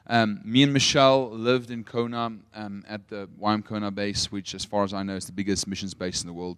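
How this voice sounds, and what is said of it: Afrikaans accent with American influence. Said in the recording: “I'm born and bred in Potch, which makes me very Afrikaans, but I lived in America for 4 years. That's why my accent sounds a little bit funny.”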